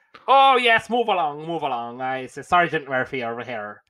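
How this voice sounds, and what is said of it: Imitated bad Irish accent. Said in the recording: “he was trying to portray an Irish police officer ... the bad accents”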